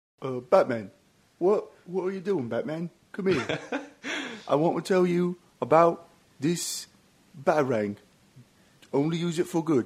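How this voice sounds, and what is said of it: Michael Caine impression. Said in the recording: “give me your best Michael Caine impression ... you want to give me one? ... I think that's Carl Pilkington from the Ricky Gervais”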